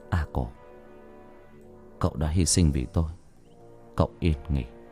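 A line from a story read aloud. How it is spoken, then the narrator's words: Muttering. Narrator (Vietnamese): Thanh lẩm bẩm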